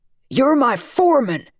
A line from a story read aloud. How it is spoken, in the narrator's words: Dad shouted